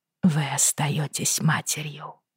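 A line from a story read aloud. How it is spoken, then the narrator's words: Quiet. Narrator (Russian): тихо произнесла Бриана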